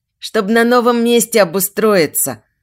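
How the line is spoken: Plain. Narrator (Russian): она так сказала

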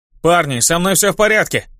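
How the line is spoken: Shout. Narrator (Russian): крикнул я

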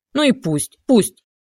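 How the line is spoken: Hysterical choking shout. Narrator (Russian): захлебываясь истерически, закричал Лейкин

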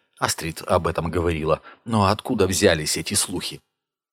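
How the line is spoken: Sighing. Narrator (Russian): Ярлаф вздохнул

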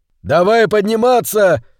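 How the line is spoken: Shout. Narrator (Russian): крикнул Хилала

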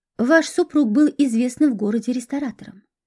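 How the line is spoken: Calm remark. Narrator (Russian): спокойно заметил Парфенов

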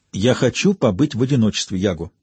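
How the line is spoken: Sharp, curt. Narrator (Russian): резко бросила она

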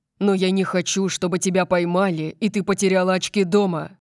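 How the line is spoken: Interrupting growl. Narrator (Russian): Прорычал Дариус, прерывая меня

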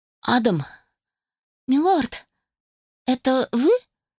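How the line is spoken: Terrified slurred squeak. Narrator (Russian): пропищала, едва ворочая языком и дрожа от ужаса

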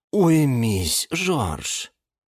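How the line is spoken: Sighing. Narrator (Russian): вздохнула орхидея Галатея

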